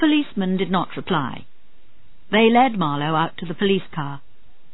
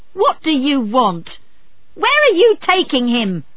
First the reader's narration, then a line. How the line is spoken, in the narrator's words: she screamed